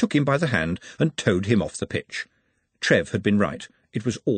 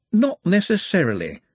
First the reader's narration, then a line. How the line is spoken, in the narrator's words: said a voice cheerfully